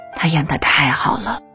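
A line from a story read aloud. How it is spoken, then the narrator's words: Admiring praise. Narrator (Chinese): 一代女神林青霞曾赞叹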